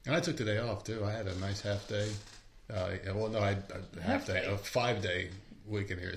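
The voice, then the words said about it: Hoarse, fading voice. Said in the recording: “I'm losing my voice already”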